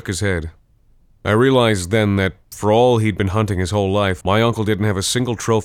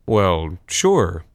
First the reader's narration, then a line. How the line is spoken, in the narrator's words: I said